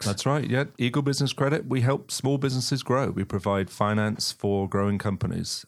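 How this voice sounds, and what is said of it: Charming non-local accent. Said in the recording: “It sounds like maybe you come a little from a little bit east of Sandy Springs. ... I can't change my accent ... I find it charming.”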